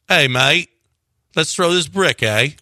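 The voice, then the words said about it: Put-on British or Australian accent. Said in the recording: “a funny accent ... someone from the UK trying to incite, or Australia”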